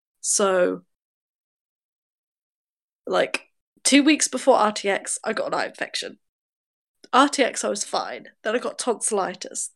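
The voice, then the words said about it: Congested, bunged-up voice. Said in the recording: “my accent is like a bunged up person because I'm constantly ill”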